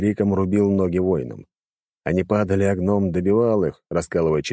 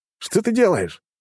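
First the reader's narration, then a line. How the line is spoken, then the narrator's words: Shouting. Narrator (Russian): закричал ему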